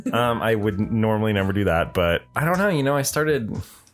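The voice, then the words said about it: Deep, groggy morning voice. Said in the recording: “You could tell by my deep voice ... You got your morning voice.”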